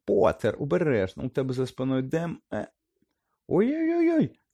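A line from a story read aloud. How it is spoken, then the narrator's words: Squeak. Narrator (Ukrainian): запищала Лаванда Браун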